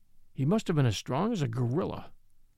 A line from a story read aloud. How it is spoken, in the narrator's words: he muttered